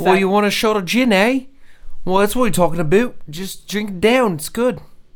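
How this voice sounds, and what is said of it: Put-on Canadian accent. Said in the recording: “That was Canadian. ... That was my Canadian accent.”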